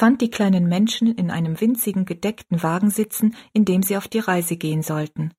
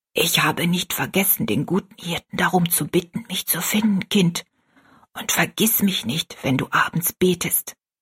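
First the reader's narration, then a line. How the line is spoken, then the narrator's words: Whisper in ear. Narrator (German): flüsterte sie Rosalie ins Ohr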